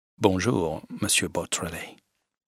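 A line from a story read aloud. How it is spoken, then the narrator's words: Low voice. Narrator (French): dit-il à voix basse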